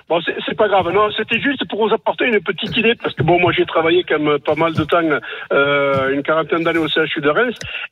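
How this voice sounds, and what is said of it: Regional French accent. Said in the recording (French): “avec mon accent, c'est pas évident”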